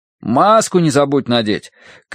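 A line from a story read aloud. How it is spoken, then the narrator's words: Calling after. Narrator (Russian): крикнул Данворти уже вдогонку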